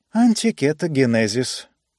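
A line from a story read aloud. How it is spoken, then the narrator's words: Purring, relaxed. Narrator (Russian): промурлыкала она, вытянувшись в кресле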